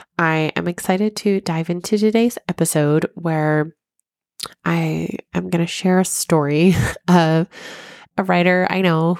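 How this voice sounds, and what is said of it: Stuffy, congested sick voice. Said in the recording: “apologize for my voice ... I am sick and a little stuffy ... I'm not speaking as clearly as I typically do, it's my sick voice”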